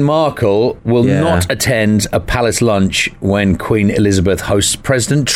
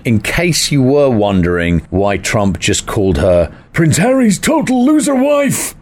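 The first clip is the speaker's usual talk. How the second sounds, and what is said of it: Imitates another person's voice. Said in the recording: “That was my Trump impression. ... Was that all right? ... No.”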